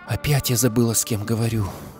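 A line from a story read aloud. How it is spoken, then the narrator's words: Sighing. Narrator (Russian): вздохнула она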